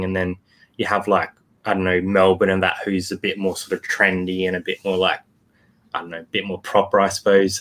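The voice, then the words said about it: Broad Northern Territory Australian accent. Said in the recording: “We're from Northern Territory, so we've got a bit of a I suppose bogany accent”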